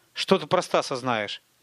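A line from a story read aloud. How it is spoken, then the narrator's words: Plain. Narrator (Russian): спросил Тимур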